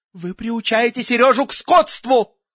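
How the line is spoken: Grandmother roaring. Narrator (Russian): Бабушка взревела

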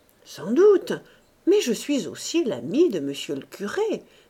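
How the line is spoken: Brisk retort. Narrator (French): répliqua vivement le juge de paix

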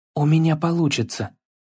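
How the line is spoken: Whispered to himself. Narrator (Russian): прошептал Атрей больше себе, чем отцу

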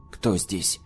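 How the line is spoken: Plain. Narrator (Russian): снова спросил я

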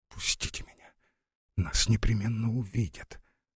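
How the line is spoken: Faint frightened whisper. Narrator (Russian): чуть слышно прошептала Лара, в страхе

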